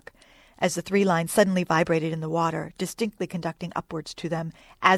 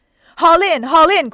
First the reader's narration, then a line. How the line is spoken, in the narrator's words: cried Starbuck again